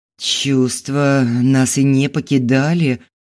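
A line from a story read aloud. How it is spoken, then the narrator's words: Breathed out. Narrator (Russian): выдохнул Толя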